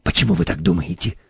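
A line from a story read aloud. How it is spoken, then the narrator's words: Whisper. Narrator (Russian): продолжал шептать Хипротомус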